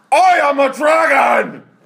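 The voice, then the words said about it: Aggressive shouted dragon voice. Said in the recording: “your dragon impression? ... It's really aggressive.”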